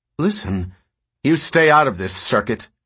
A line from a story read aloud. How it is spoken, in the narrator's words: Galen snapped